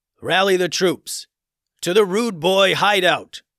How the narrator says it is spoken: bellowed the king

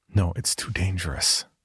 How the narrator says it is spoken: she whispered

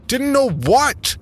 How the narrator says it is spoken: I shouted

